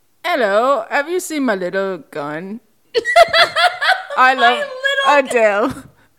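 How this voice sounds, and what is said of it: Poor Daniel Craig British impression. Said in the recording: “Yours is Daniel Craig. ... he's British. ... I can't do any accents. ... I'm so bad at impressions”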